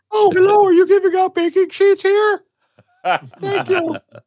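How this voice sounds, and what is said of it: Put-on disguised voice. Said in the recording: “put on a whole voice ... talked in a different voice”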